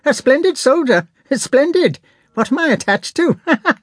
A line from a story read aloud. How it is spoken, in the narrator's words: laughed Prince Bolkonski